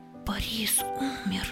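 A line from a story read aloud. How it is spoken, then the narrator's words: Whispered. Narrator (Russian): Одна женщина почему-то шепотом сообщила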